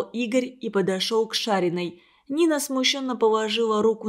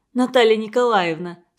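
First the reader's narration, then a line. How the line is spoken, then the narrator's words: Laughing. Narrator (Russian): смеясь ответила Лида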